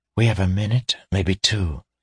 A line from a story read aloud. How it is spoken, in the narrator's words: she said quickly, her voice a whisper